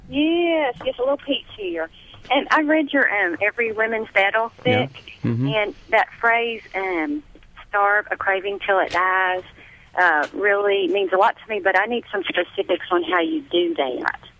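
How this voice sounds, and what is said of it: Bronx accent. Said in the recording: “are you from the Bronx? ... I can tell from that accent”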